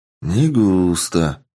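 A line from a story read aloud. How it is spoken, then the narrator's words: Heavy sigh, then speaking. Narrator (Russian): тяжело вздохнув, произнес я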